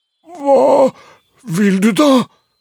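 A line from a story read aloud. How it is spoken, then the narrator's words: Uncertain voice. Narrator (Norwegian): spurte Fobutrond med usikker stemme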